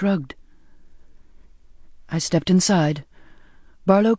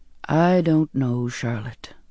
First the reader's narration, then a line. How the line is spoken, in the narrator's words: he said wearily